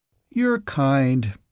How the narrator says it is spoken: he said, chuckling

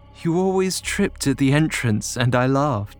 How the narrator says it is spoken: she sighed

